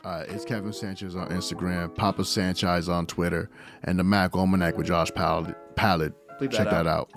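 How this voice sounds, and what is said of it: Deliberately sexy, seductive voice. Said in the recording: “Why are you talking so sexy? ... Because I like that sexy voice ... That's my sexy voice.”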